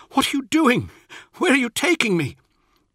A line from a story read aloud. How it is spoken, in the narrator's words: cried